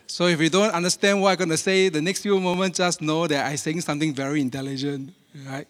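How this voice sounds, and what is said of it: Speaks with a distinct accent. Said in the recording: “you may have problem understanding my accent ... if you speak with my accent”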